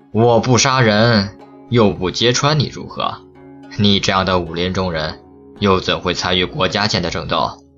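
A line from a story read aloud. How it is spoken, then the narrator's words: Cold sneer. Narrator (Chinese): 玄家炼冷笑一声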